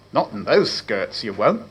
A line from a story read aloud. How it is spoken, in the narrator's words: muttered Condell